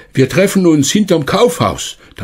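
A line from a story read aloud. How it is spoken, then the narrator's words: Called out. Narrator (German): rief noch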